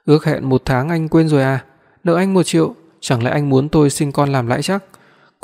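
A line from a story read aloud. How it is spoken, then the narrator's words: Angry woman. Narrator (Vietnamese): Cô tức giận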